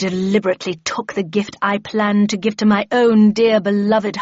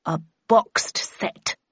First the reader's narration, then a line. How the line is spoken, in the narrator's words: replied the Red Queen coldly